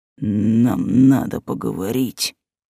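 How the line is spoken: Low growl. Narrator (Russian): с глухим рычанием произнес

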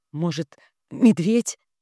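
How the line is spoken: Choked, tentative. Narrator (Russian): Перехваченным голосом предположил Кирилл

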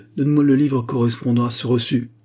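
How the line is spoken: Gruff tone. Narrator (French): dit-il d'un ton rude

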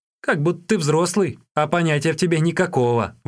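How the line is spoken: Exclaiming. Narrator (Russian): воскликнул Юньге

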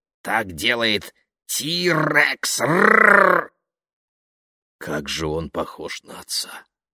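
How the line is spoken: Loud, over a roar. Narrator (Russian): Мистер Уокер сказал, перекрывая рычание

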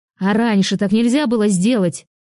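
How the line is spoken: Shouting. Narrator (Russian): закричала она

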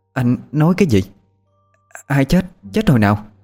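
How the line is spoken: Stammering in shock. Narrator (Vietnamese): Nghe nói tới đó, chị Út mặt cắt không còn giọt máu, lắp bắp hỏi lại

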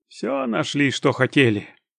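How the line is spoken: Sleepy question. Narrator (Russian): сонным голосом спросил Латан

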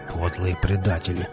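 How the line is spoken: Gruff mutter. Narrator (Russian): буркнул Велес

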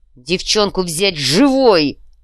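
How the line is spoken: Roaring. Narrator (Russian): взревел Тедди

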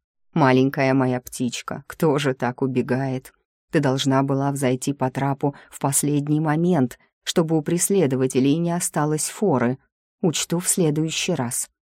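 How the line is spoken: Grumbled. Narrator (Russian): буркнула

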